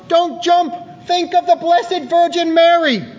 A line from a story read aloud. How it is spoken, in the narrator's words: reaching desperation point, the cop, who was a good Catholic, yelled